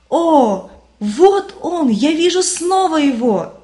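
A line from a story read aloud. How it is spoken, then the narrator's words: Loud jubilant exclamation. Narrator (Russian): христианин громким ликующим голосом воскликнул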